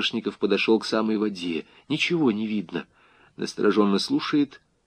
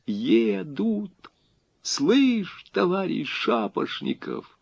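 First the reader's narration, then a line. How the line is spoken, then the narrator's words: Joyful whisper. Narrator (Russian): Логвин радостно зашептал, как будто его голос могли услышать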